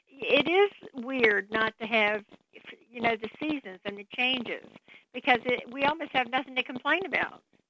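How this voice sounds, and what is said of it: Southern drawl accent. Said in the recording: “You still get that southern drawl, though ... I never got rid of my southern accent for some reason. It just doesn't go away.”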